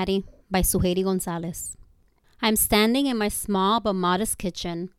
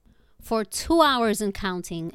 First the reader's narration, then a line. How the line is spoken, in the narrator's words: Evans cried nonstop